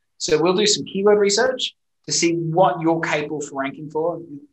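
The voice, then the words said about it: Speaks with a distinctive accent. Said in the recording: “my funny accent”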